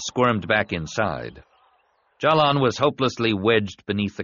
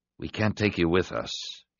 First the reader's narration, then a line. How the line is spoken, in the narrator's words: said quietly